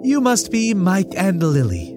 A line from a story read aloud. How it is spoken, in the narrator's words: she said, smiling brightly